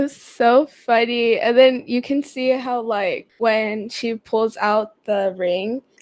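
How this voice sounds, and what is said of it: Usual voice. Nothing is said of it.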